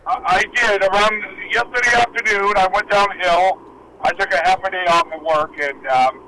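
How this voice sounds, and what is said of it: Strained, partly lost voice. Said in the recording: “I haven't lost my voice completely, but it's hanging in there ... your throat was just hurting”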